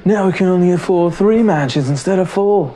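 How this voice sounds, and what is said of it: Put-on British accent. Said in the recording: “I don't know why I gave them a British accent.”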